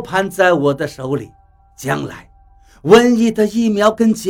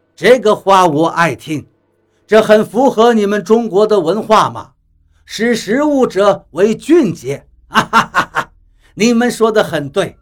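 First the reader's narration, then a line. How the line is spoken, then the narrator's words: Happy, laughing loudly. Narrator (Chinese): 比利高兴地大笑起来，道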